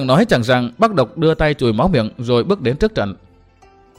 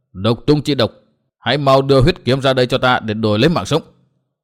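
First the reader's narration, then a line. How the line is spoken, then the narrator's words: Loud shout. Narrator (Vietnamese): Bắc Độc quát lớn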